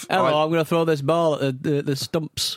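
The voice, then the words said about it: Put-on English cricketer Yorkshire accent. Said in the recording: “he's got a very crickety accent ... cricketers all talk a bit like this ... Yorkshire”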